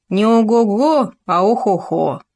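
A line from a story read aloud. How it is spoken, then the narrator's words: Grumbling mutter. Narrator (Russian): пробурчал Хома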